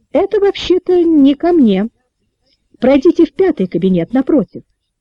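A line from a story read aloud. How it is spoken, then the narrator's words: Calm statement. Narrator (Russian): спокойно заявила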